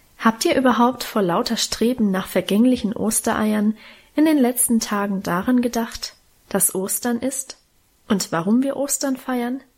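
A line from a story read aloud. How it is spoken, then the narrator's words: Plain question. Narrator (German): fragte Mutter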